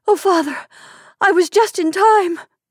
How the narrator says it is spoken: she cried hysterically, and wildly sobbing

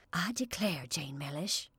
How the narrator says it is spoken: she whispered

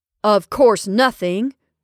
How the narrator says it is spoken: said Horace gruffly

